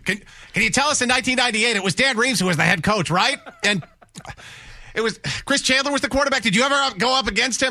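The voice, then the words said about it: Matthew Slater impression, class-nerd voice. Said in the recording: “I love the Matthew Slater impersonation... The class nerd.”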